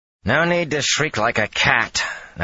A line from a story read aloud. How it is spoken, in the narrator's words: Nynaeve growled